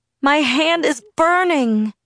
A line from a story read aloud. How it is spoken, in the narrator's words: I screamed